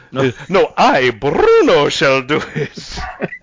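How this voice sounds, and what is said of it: Russian accent, Bruno the bear. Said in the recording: “Bruno's got like a Russian accent.”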